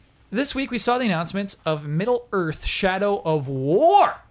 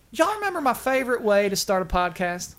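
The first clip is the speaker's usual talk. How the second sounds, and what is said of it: Put-on sweet Southern accent. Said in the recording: “They're terrible accents. ... It's just a sweet southern accent.”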